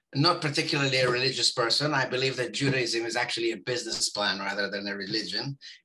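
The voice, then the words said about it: Israeli accent. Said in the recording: “because of my accent, I guess, and whatnot. And I was born in Israel”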